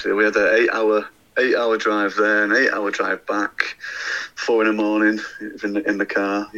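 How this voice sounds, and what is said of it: Rough, worn-out voice. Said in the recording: “That's why I sound pretty rough now”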